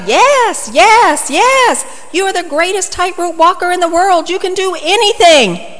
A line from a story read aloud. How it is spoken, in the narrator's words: The crowd enthusiastically shouted